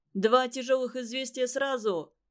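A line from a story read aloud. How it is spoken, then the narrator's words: Shout from afar. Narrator (Russian): еще издали крикнул он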